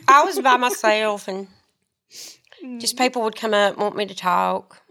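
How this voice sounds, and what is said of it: Southern American accent. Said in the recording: “my Southern accent ... I already have a real Southern ... I'm really the most Southern talker”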